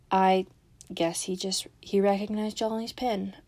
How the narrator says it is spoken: Edaline mumbled, her eyes turned watery

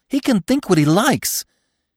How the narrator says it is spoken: she cried, bleating again

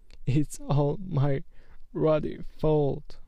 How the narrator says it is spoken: he sobbed

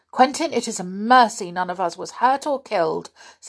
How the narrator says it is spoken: said Aunt Fanny, looking at him rather sternly

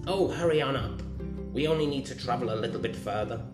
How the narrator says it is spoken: their mother grumbled

